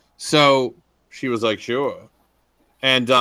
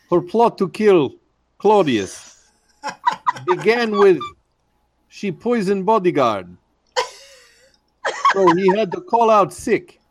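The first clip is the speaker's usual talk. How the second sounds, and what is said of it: Put-on Russian accent. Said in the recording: “Can you give her a Russian accent? ... I'll give you the whole story a Russian accent.”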